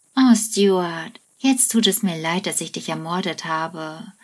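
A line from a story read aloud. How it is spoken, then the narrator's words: Sighing. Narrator (German): seufzt Penny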